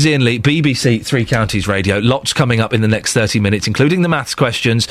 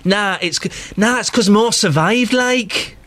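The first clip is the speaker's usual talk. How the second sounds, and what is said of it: Impression of a listener's voice. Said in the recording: “that is my Catherine Boyle impression.”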